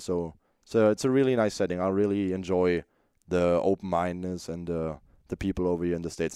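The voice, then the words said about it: German accent in English. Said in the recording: “I'm a German, I'm a foreign ... they know that I have an accent”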